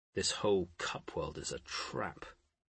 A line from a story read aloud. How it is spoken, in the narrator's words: Poole muttered